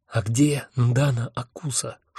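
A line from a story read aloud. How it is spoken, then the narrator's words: Whispered question. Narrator (Russian): шепотом спросил я Хехельфа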